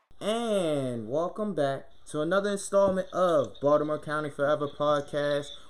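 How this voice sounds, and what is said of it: Baltimore accent. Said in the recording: “Wow, I sound like I'm really from Baltimore. ... The goddamn accent is coming out.”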